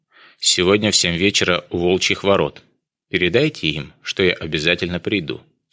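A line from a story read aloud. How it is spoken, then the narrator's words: Calm. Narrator (Russian): спокойно сказал Жаботинский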